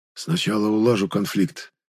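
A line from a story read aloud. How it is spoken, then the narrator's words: Whispered reply. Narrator (Russian): ответил Ишим шепотом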